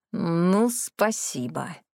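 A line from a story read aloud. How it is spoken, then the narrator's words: Through gritted teeth. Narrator (Russian): процедил Марис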